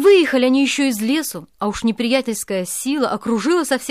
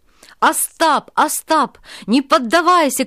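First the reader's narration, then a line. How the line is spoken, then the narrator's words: Shouting. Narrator (Russian): кричал Тарас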